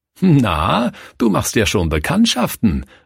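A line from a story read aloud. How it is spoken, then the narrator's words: Nun laughing. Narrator (German): lachte Schwester Mathilde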